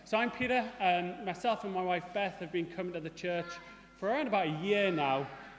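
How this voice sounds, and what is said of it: Mixed northeast English accent, mild Geordie. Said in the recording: “As you'll probably notice from my accent, I'm not originally from Salisbury. I have a mongrel accent ... I lived in the northeast for quite a long time. And so I call it a watered-down Geordie, with a little bit of smoggy in there”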